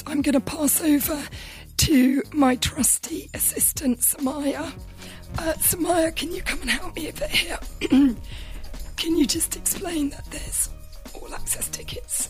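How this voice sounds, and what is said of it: Strained, failing voice. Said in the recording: “I'm really losing my voice. ... apologies for my voice.”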